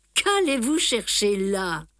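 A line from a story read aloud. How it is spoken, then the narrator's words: Laughing exclamation. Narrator (French): m'écriai-je en riant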